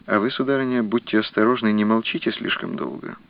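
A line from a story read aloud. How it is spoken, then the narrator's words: Quiet address. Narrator (Russian): тихо обратился Бенвенуто к герцогине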